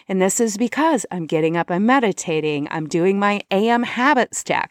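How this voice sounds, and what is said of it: Energetic, excited voice. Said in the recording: “can you hear it in my voice? I'm like lit. I'm on fire. I feel good.”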